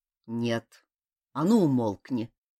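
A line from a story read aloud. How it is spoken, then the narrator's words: Displeased commanding voice. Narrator (Russian): недовольным голосом приказал Сихан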